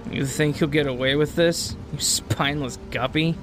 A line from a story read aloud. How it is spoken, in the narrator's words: Travis chuckles